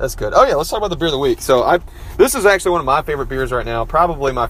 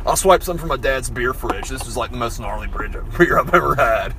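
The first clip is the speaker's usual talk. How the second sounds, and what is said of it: Stereotypical surfer dude voice. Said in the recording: “super stereotypical southern accent ... Southern or you're doing surfer?”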